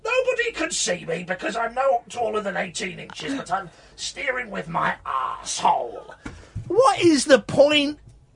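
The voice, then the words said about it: Posh gentleman character voice. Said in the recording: “why are you doing that voice? ... because I'm a very posh gentleman”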